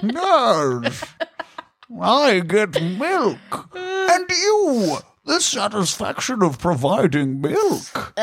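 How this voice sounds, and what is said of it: Bane character voice impression. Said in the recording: “my Bane impression ... I feel my Bane impression veers dangerously close to Deckard Cain territory”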